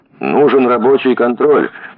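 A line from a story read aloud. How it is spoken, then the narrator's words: Shouted. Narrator (Russian): крикнул Бушмакин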